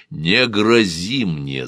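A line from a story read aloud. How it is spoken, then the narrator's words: Growl. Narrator (Russian): зарычал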